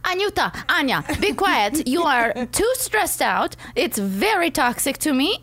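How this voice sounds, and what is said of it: Put-on Russian accent. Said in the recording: “she's Russian, which is a very cute accent.”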